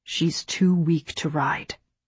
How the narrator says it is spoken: Rafe said in a low voice

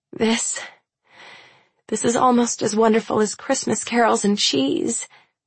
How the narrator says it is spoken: I moan

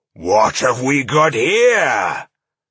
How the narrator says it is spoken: growled a deep voice

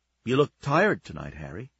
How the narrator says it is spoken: she said, her voice gentle

